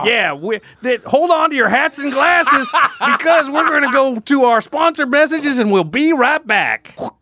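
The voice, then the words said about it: Put-on cowboy accent. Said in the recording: “Got to do it in the cowboy accent. ... Do a cowboy accent.”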